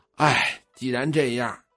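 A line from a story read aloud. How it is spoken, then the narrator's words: Old woman sighing. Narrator (Chinese): 老太太叹了口气儿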